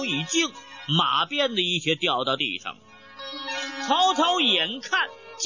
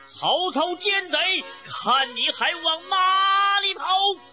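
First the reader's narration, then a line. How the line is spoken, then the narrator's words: Loud shout. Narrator (Chinese): 马超高声叫道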